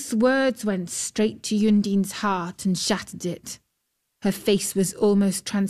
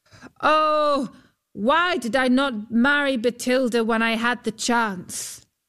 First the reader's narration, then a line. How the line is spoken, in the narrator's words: Huldbrand called out